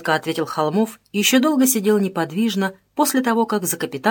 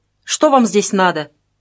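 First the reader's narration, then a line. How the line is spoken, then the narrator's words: Angry question. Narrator (Russian): сердито спросила она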